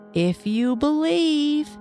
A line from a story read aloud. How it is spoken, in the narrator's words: he shouted to them